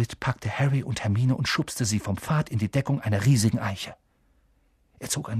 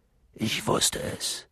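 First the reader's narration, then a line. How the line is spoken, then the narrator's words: Murmuring. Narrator (German): murmelte er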